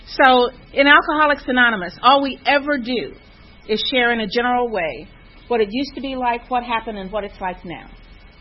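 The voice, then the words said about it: Slight Kansas twang. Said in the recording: “a little bit of a twang, and that's because I'm from Kansas”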